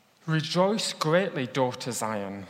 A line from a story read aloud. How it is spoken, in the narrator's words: said